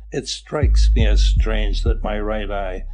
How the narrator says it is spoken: this one-eyed Ivan Ivanovitch always spoke sarcastically about himself

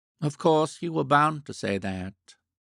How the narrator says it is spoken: she said wistfully

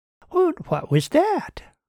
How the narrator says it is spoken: Heather asked brightly

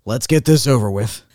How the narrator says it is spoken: he reportedly said grimly to Frank Capra

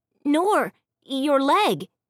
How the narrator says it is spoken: Finn cried, seeing my bloody pants

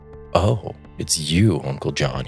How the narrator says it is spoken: he said

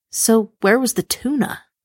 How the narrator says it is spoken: I sighed

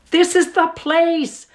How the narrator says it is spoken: shouted Uncle Marlowe with a surprising happy face

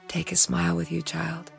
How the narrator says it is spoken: Ariane said softly

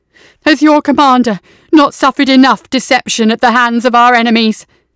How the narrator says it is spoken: cried out

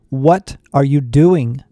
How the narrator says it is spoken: Becky shouted

